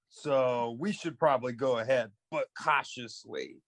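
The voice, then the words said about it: Put-on Brooklyn accent. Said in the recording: “Why are you from Brooklyn now? ... His accent just changes like the whole.”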